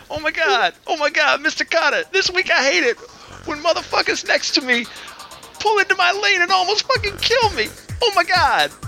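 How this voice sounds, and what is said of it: John Travolta impression. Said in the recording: “That sounds like a black John Travolta.”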